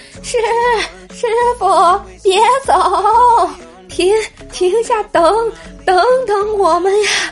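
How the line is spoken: Shouting while running. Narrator (Chinese): 我俩就在后面边跑边喊

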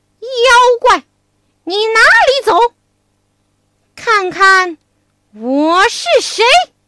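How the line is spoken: Loud shout. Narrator (Chinese): 悟空 大声叫道

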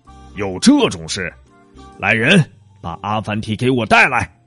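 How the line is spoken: King roaring. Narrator (Chinese): 国王听了大吼

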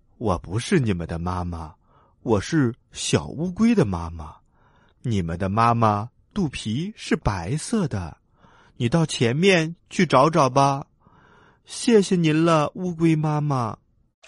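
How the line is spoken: Laughing. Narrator (Chinese): 乌龟笑着说

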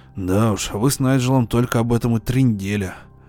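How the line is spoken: Grumbled. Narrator (Russian): проворчал Фондерштадт

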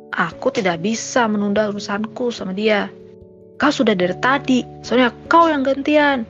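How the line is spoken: Increasingly annoyed shout. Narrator (Indonesian): teriak Naira yang semakin kesal

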